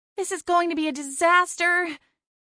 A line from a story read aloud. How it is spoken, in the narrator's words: Cassie moaned